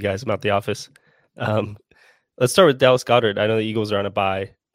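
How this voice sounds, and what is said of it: Voice affected by a cold. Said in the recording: “Apologize for the voice. I'm fighting off a cold”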